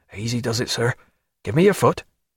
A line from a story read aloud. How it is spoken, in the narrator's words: Bondon, taking it for a physical uncertainty, whispered